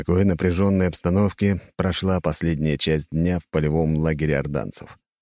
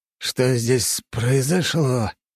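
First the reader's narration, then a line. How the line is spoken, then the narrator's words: Strained, barely squeezed out. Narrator (Russian): Только и мог он выдавить из себя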